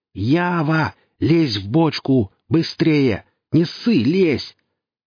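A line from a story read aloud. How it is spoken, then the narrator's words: Shouting at full voice. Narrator (Russian): сталкер заорал во все горло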